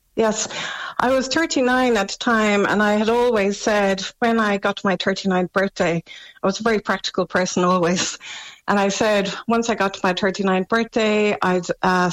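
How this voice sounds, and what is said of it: Slightly crackly, hoarse voice. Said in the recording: “I have a bit of a sore throat at the moment, even that my voice is a little bit crackly.”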